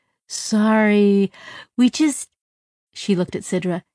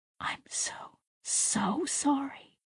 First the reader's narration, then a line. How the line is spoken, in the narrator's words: she whispered